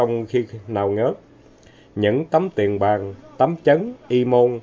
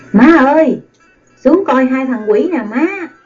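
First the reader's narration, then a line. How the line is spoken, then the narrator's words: Girl calling out loudly. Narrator (Vietnamese): Người con gái la lên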